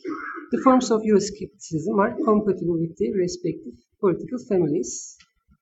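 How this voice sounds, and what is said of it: Non-native English accent. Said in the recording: “sorry for my accent. My first foreign language are German and French.”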